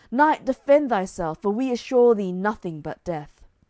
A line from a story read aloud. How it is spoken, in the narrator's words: they cried